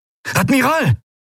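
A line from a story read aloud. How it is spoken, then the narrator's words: Calling out. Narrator (German): rief Quailor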